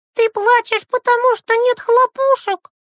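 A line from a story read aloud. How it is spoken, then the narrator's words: Shouting. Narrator (Russian): закричала она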